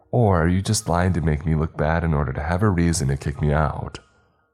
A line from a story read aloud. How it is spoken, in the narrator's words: I said calmly